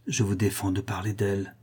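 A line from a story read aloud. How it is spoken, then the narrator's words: Low muffled voice. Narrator (French): fit-il d'une voix sourde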